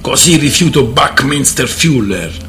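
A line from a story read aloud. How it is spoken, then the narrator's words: Growled. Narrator (Italian): ringhiò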